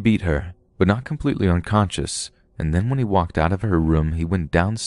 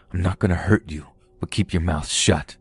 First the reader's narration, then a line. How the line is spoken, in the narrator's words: He just growled and said something like